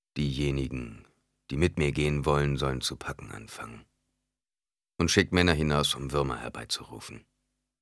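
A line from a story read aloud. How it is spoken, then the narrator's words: Calm voice. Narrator (German): Mit ruhiger Stimme sagte er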